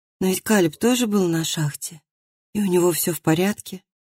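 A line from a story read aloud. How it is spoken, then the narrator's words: Muttered. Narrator (Russian): Она пробормотала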